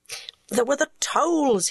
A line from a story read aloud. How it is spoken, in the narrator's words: he moaned